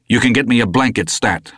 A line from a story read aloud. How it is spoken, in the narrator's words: I said curtly